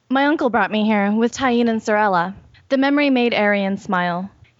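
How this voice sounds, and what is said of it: Put-on white girl voice. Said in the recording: “That was such a white girl voice.”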